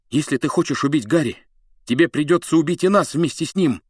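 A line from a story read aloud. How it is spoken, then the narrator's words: Furious shout. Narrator (Russian): яростно крикнул он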